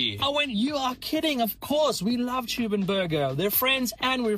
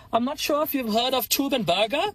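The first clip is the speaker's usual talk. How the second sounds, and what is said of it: Put-on German accent. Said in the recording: “I also hope I did the German accent justice. ... I think you did a good job. You did a great job, brother.”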